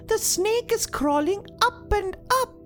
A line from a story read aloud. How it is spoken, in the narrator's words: the snow girl again squealed